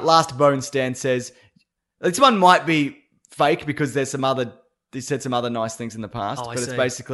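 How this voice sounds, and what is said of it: Australian accent. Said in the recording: “that annoying, abrasive Aussie bastard ... Abrasive Australian accent ... that accent is so fake ... That's how I talk. My voice.”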